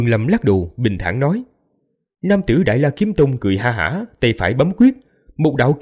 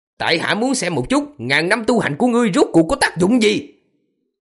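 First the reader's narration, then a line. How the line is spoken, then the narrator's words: Angry laugh, icy tone. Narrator (Vietnamese): Gã giận dữ cười, nhưng mà ánh mắt càng thêm lạnh như băng, nói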